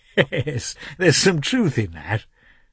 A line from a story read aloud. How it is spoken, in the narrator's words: said Oblonsky, laughing merrily